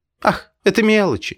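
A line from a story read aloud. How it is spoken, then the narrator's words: Laughing female voice. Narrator (Russian): смеялась Лида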